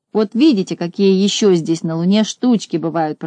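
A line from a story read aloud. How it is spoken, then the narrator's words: Grumble. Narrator (Russian): проворчал Незнайка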